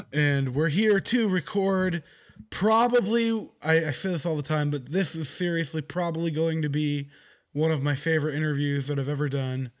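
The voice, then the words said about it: Hoarse, worn-out voice. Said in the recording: “My voice is gone ... I'm getting over a bout of sickness”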